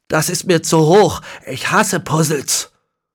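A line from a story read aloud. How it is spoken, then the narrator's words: Tormented groan, then cry. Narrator (German): Als Manfred seinen Urgroßvater sah, stöhnte er gequält auf und rief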